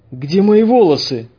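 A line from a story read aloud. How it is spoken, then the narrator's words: Exclaiming. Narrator (Russian): воскликнул он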